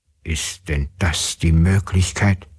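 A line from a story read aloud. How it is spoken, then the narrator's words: Father's muttered grumble. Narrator (German): brummte der Vater in seinen Bart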